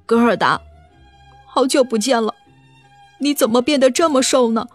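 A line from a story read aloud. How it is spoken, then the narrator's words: Crying. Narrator (Chinese): 凯哭着对格尔达说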